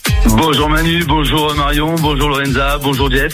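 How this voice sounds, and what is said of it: Slight regional sing-song French accent. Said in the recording (French): “ce petit accent ... Ça chante.”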